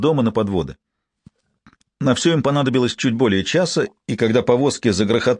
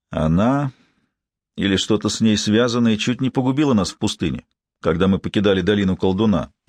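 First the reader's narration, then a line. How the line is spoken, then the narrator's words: Gloomy. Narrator (Russian): мрачно заметил Корбек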